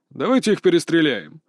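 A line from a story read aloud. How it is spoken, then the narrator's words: Mocking. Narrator (Russian): насмешливо предложил третий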